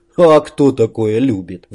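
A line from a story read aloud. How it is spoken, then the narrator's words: Sighed. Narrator (Russian): вздохнул Макс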